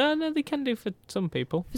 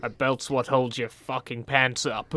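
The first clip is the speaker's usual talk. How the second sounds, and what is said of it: Bad Vince McMahon impression. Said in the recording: “my really bad impression of Vince McMahon”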